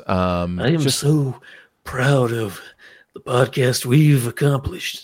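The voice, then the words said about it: Clint Eastwood impression. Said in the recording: “a really good Clint Eastwood impression”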